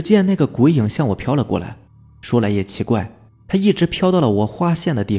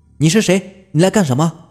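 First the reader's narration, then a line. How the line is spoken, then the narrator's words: Shouting, summoning courage. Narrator (Chinese): 我壮着胆子…喊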